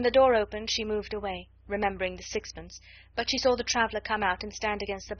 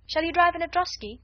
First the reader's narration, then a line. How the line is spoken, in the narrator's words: cried another